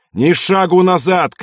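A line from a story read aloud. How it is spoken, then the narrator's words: Shouting. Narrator (Russian): кричал Ярошенко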